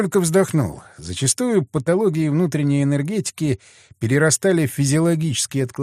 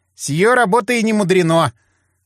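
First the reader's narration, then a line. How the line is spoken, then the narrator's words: Wry snort. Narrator (Russian): хмыкнул Иван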